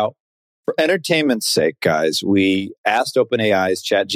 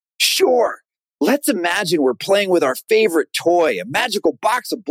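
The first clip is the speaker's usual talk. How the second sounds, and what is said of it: Imitates another person's voice. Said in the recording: “my best John Mulaney impression ... in John Mulaney voice”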